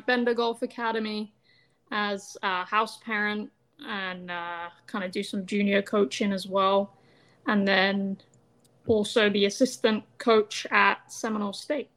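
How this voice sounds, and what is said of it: English accent. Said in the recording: “back at home, uh, from England, of course. By the way, love the accent.”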